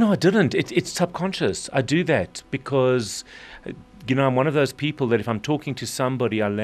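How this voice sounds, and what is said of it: Usual voice. Nothing is said of it.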